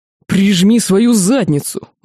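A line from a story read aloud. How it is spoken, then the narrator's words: Strangled howl. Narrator (Russian): взвыл рыцарь, забившись в мертвом захвате магистра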